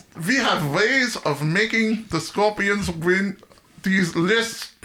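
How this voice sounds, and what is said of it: Put-on German accent. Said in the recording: “you better do a German accent”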